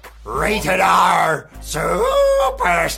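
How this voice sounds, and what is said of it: Pirate accent. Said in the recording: “I just wanted to hear that in a pirate accent and it did not disappoint”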